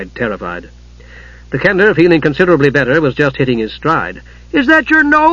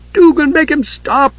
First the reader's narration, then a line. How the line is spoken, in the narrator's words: Usha pleaded